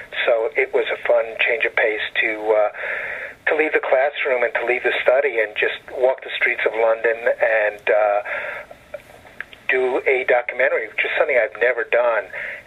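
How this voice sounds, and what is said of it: Brooklyn accent. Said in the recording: “for a kid from Brooklyn, where I was born, and you can hear it in my accent”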